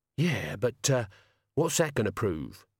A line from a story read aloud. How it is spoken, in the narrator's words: Death sighed